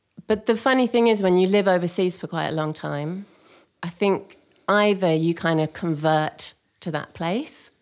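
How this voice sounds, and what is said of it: English-influenced Australian accent. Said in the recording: “So became quite English in that time ... developed the accent, haven't lost the accent.”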